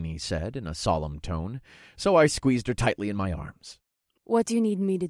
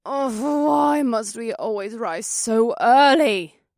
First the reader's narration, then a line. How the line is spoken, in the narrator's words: Aoife groaned from Alyssa's other side